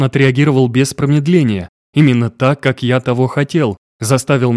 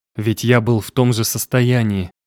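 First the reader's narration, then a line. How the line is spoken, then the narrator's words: Hoarse reply. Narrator (Russian): ответил хрипом на хрип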